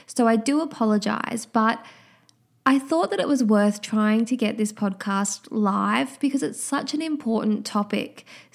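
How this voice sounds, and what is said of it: Nasal, congested head-cold voice. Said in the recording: “apologize for my voice. I've been struck down with a bit of a head cold ... I'm sure you can hear it in my voice ... that I'm a touch more nasal than usual and a bit congested ... that kind of cold sound that I have to my voice”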